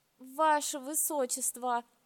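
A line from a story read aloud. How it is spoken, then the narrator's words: Moan. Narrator (Russian): простонал лорд Кенир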